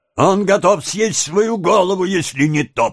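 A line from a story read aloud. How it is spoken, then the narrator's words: Grumbled. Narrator (Russian): проворчал мистер Гримуик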